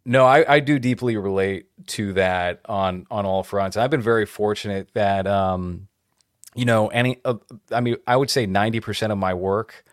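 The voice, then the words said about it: Neutral American accent. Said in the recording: “they need a neutral American ... my voice is neutral American accent”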